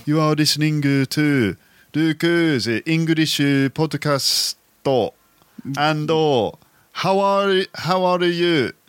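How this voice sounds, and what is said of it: Imitated Japanese accent. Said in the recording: “Shall I do a Japanese impression?... I used to be able to do a Japanese accent much better than I can now.”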